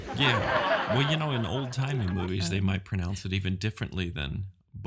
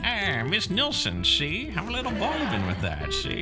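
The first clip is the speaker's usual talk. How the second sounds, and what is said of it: Old-timey gangster-style accent. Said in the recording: “I don't even know what that accent is. I think it's just old-timey ... Sounds like you're trying to sound like some Italian gangster”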